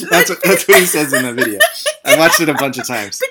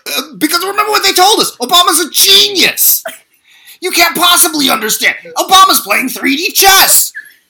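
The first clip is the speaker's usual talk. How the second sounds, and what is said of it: Impression of Cenk Uygur. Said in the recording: “I'm gonna try and do a Jenk impression... That was so good.”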